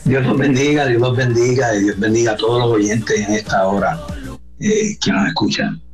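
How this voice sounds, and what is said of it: Distinctive Puerto Rican Spanish accent. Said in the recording (Spanish): “sí se oye, como que está en Puerto Rico ... qué bonito acento, sí, ¿verdad? Bien distintivo.”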